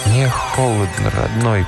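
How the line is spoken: Barely recognizable hoarse voice. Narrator (Russian): прохрипел в душной тишине субтропической ночи с трудом узнаваемый голос

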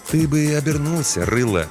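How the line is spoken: Soft advising tone. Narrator (Russian): мягко посоветовал детине-смотритель

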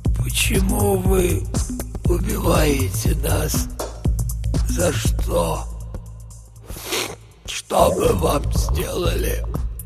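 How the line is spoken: Old man whispering. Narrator (Russian): Старик шептал

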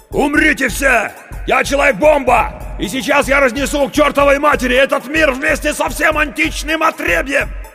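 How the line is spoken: Shout. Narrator (Russian): Круз закричал

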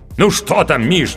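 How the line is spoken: Impatient exclamation. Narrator (Russian): нетерпеливо воскликнул актер

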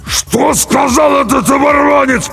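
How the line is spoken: Rasped hoarsely. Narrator (Russian): прихрипел Джерей

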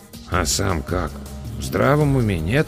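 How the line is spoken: Quiet grumble in ear. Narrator (Russian): тихонько пробурчал мне на ухо Эдвин

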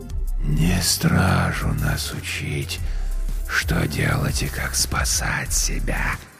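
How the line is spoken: Rustling whisper. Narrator (Russian): прозвучал шелестящий шепот короля

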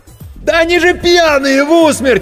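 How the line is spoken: Frantic screaming. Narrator (Russian): истошно заорал Серега

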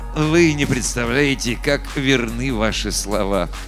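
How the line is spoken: Sighing, smiling, cryptic. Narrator (Russian): Доктор Слэу, вздохнув, улыбнулся и непонятно сказал

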